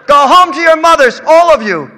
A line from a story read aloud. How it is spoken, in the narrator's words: Mamere yelled